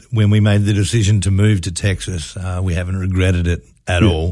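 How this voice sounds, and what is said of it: Australian accent. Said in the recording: “has a very exotic way of expressing himself ... where's that accent from? ... are you an Aussie? ... I'm from Western Australia.”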